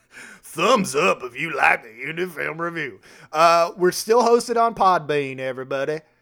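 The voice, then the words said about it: Put-on accent. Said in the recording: “I don't know why I'm doing this accent.”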